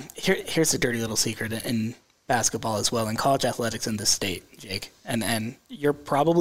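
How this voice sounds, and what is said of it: Usual voice. Nothing is said of it.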